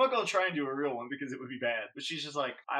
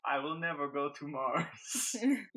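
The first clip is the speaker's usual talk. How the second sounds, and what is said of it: Exaggerated fake Spanish accent. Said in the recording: “I'm doing what they thought was a Spanish accent ... I was copying their bad accent ... really passable accent”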